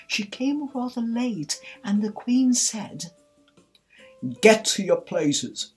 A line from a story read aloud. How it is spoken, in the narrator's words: shouted the queen in a voice of thunder